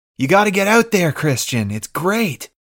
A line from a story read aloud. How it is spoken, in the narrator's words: Jack yells